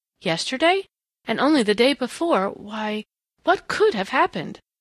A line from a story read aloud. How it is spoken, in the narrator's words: McLean was asking himself very grimly